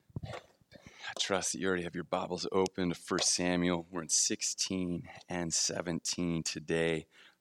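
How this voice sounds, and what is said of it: Slightly hoarse voice. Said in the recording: “I'm a little hoarse right now. I hope I'm not getting a cold. I think it's from just yelling”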